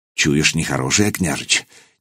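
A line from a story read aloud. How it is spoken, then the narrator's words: Quiet question. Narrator (Russian): негромко спросил десятник Малига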